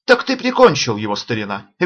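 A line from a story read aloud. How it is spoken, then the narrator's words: Cheerful. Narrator (Russian): весело сказал Санта-Анна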